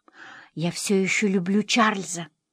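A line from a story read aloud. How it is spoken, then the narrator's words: Whisper. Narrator (Russian): прошептала Эдвина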